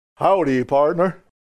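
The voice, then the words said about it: Poor John Wayne impression. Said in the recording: “imitating John Wayne ... Terrible John Wayne, I'm sure.”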